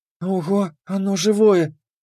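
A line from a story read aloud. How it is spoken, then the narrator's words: Delighted whisper. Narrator (Russian): прошептала с восторгом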